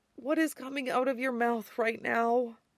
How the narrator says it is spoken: Peter said wearily

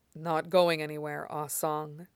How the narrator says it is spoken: Ming Tuei says

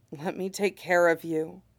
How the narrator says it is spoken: he says, almost a whisper

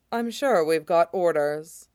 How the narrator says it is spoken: said dryly

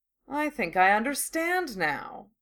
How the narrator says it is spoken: Draco drawled

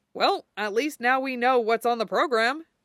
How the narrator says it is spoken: Clint said brightly

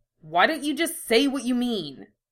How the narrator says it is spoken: Ed snapped

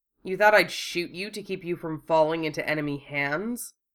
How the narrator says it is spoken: Wufei asked, his voice more biting than he intended

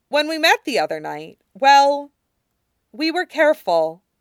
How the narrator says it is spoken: Katara said firmly

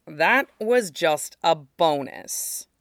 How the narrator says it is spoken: he growled

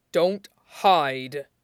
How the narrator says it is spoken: he growled

